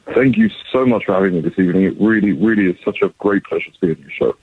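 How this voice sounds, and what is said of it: London English accent. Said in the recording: “what kind of accent is that? ... the accent, shockingly, it's not from Brooklyn. I was born and raised, I don't know if you could tell, but I was born and raised in London, England.”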